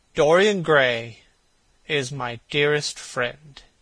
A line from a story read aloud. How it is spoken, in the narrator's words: he said